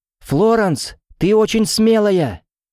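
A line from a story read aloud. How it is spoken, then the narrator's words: Sudden shout. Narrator (Russian): внезапно закричала Виена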